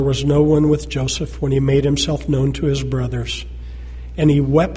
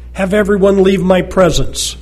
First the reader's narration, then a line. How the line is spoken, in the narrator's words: Joseph could no longer control himself before all his attendants, and he cried out